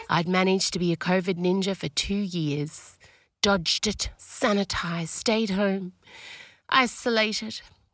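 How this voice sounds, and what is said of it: Sick voice. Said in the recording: “I'm really trying not to be in my sick voice ... Covina found me ... I've never been sicker”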